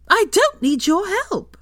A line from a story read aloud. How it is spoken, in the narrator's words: Hermione screeched